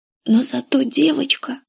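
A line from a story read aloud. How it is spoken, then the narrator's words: Whisper. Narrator (Russian): сказала она шепотом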